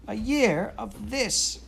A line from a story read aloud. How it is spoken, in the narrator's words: cried Jane